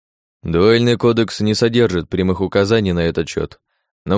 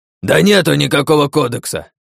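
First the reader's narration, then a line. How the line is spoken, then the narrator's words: Old man barking. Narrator (Russian): рявкнул дед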